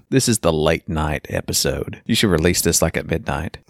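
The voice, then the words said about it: Low-energy relaxed voice with vocal fry. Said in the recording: “Low energy ... You've got a nice vocal fry going on ... Your voice is so relaxed”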